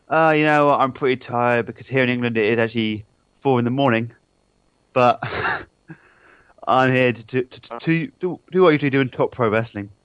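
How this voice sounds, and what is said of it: English accent. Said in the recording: “You have a bit of an accent. Are you from England? ... Yes, I'm from Hampshire, England.”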